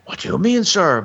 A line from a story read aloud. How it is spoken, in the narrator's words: blurted he